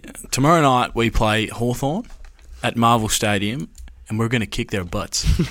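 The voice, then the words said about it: Canadian accent. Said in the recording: “put on the Canadian accent ... I'll say it in my accent”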